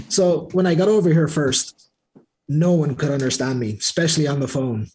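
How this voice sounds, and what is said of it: American-sounding accent. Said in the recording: “I have to comment on your accent as well. You, you sound quite American.”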